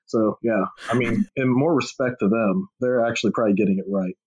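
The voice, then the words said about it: Texan accent. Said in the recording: “that Texan talks like the biggest fucking redneck”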